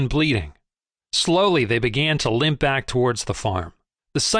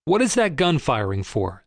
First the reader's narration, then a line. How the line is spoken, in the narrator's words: said Boxer